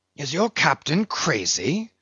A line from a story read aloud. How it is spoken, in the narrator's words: whispering Fedallah